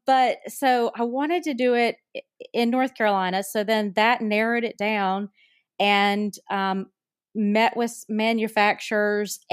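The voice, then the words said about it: North Carolina accent. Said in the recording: “listeners can tell from my accent, I'm from North Carolina”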